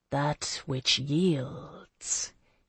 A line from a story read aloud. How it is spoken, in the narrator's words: she murmured